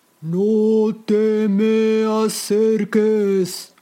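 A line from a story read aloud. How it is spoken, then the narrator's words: Bellowing like a bull. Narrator (Spanish): Su voz salió como el bramido de un toro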